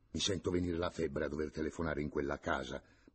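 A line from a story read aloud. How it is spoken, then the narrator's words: Grumbling. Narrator (Italian): brontolava il signor Alfio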